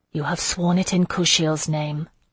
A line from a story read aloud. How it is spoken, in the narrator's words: I murmured